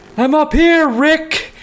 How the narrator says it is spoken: from a really long way away pretending I was in the rafters yelling

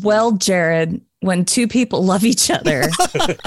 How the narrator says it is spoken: he bent over laughing

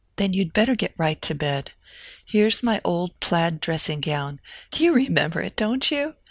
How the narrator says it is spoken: Ann Eliza laughed, recalling Evelina's ironies on the subject of the antiquated garment

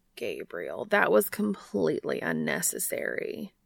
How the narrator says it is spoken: Castiel groans

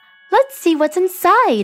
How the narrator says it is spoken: exclaimed Marina

